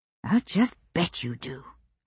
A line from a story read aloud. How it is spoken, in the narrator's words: I said, but far enough under my breath that I doubted he heard me